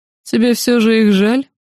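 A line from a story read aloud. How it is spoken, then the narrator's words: Mocking question. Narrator (Russian): Насмешливо поинтересовался кесарь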